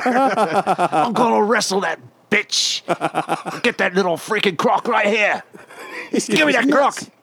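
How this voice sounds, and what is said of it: Put-on Australian accent. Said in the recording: “you have to do it in an Australian accent”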